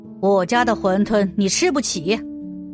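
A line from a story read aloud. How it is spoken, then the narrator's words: Old man, cold. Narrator (Chinese): 老头冷冷的说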